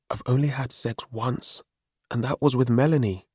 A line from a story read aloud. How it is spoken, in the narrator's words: I said again